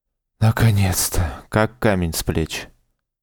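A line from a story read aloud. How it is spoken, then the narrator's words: Relieved sigh. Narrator (Russian): вздохнул Саша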